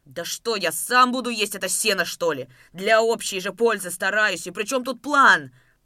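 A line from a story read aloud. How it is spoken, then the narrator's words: Exasperated shout. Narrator (Russian): Потеряв терпение, выкрикнул Давыдов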